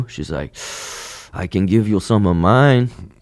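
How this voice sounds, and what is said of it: Put-on Mexican accent. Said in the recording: “with a little Mexican accent right there ... It's more Mexican”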